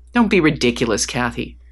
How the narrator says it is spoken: snapped back

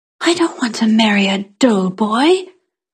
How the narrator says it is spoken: I whispered furiously

